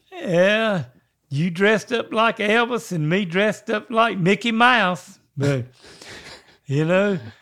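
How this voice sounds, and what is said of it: Put-on character voice. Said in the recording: “You're still doing the voice. Do you know that? ... As long as you know you're still doing the voice ... you're stuck in that voice”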